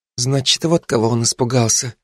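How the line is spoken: Mumbling. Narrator (Russian): пробормотала

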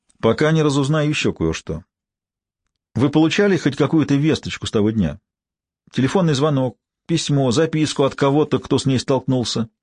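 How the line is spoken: Formal official tone. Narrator (Russian): сказал я своим лучшим официальным тоном, словно речь идет о посторонней пропавшей девушке

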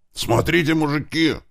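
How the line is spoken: Sudden shout. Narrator (Russian): внезапно заорал Клёпа

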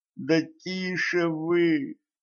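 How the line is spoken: Groaned. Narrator (Russian): простонала Кэтран

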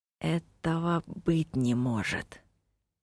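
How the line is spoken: Whisper. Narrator (Russian): прошептал Киллан

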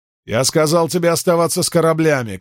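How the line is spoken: Male shout. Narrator (Russian): крикнул он

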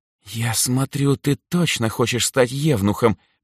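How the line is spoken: Hissed. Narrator (Russian): прошипела Эльза

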